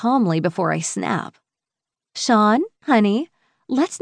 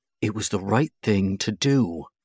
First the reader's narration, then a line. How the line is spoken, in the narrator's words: Patrick says through gritted teeth, scowling at Sean